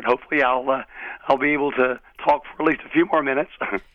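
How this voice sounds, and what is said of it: Hoarse voice from laryngitis. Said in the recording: “You have a little laryngitis?... A little laryngitis. It's better than it was yesterday, so I just sound a little weird.”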